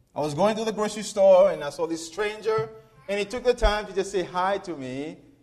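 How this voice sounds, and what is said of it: Slight Seychellois accent. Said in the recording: “the cute little accent I've got ... I'm from the Seychelles Islands”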